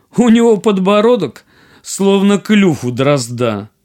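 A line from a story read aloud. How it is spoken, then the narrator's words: Laughing, mocking. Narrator (Russian): Принцесса стала над ним смеяться и сказала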